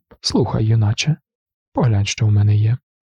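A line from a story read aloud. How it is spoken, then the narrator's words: Confiding tone. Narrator (Ukrainian): сказав довірливим тоном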